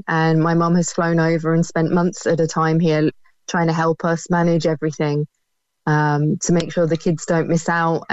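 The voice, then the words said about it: British accent. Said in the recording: “you can probably tell from my accent, I'm from the UK”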